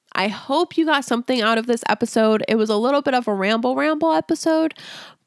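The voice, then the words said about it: Congested, tired, fading voice. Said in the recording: “I'm starting to get more congested and I don't know if you can tell, but my voice is starting to just like poop out because I've been talking for way longer than I've talked in the past few days”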